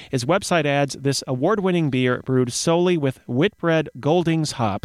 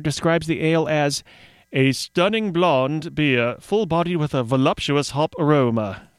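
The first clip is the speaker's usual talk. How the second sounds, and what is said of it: Badly done put-on accent. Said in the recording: “That was an awful accent”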